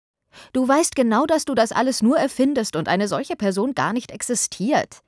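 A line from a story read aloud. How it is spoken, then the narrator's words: Angry. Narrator (German): sagte Marianne zornig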